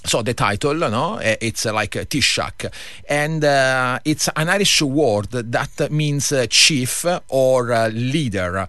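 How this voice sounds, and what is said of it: Italian accent in English. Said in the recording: “my accent is not from Ireland. I'm Italian”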